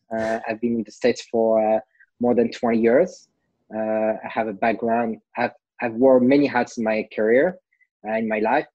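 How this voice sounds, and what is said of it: French accent. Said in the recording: “I'm French originally, can't hide my accent”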